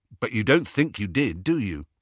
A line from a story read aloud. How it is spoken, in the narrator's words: asked Ron